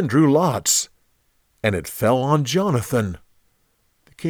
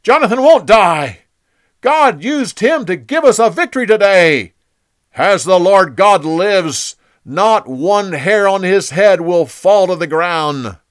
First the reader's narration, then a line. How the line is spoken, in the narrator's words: The people shouted